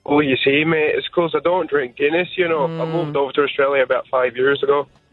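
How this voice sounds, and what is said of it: Fake Irish accent, decent attempt. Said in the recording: “I think that's a fake accent. ... Are you Irish? ... It wasn't bad. Like, it was a good effort.”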